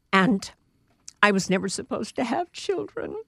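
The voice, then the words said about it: Emotional, choked-up voice. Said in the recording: “I don't know why I'm getting emotional, but I am.”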